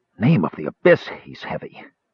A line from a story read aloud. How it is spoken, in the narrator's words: Tanis gasped, staggering under the man's dead weight